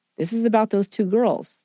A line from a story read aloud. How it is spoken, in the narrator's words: calmly asking